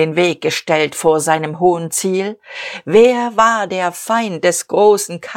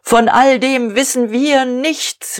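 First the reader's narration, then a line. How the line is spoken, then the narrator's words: Called out. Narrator (German): rief Diederich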